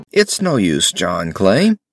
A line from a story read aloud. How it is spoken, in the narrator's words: said Holmes blandly